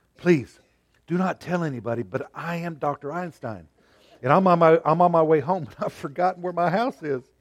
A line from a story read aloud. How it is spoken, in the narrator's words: The voice on the telephone dropped to a near whisper